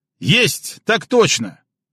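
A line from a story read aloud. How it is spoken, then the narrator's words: Angry bark. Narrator (Russian): Зло рявкнул Пашка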